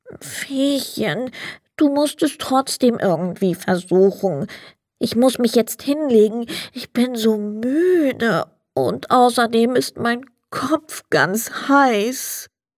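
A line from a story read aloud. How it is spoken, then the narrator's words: Sad, weary. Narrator (German): Der Sandmann ließ den Kopf hängen und sagte traurig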